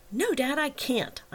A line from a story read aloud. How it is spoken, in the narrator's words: snapped